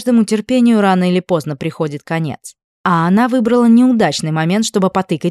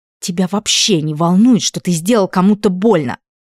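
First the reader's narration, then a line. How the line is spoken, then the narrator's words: Hissing. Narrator (Russian): прошипела Элли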